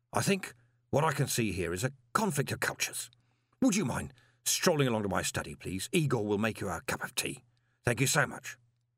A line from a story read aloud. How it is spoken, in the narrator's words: said Gilt quietly